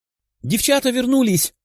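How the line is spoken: Exclaiming. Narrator (Russian): воскликнула Катя

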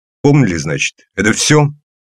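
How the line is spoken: Sharp, curt. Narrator (Russian): Резко, но по делу

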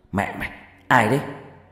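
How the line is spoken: Shout. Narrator (Vietnamese): tôi hét lên

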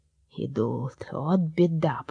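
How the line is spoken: Old man's groan. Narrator (Russian): простонал Старый Год

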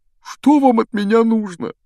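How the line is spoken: Whiny question. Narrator (Russian): Плаксивым голосом спросил преподаватель защиты от темных искусств

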